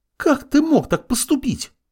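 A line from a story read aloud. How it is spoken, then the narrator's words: Shriek. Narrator (Russian): Взвизгнула Исида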